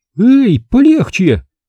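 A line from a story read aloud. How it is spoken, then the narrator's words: Cry of pain. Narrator (Russian): вскрикнула она, когда веревка врезалась ей в запястье и вывернутые в суставах руки пронзила боль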